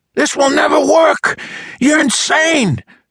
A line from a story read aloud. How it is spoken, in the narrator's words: Siegel screamed at him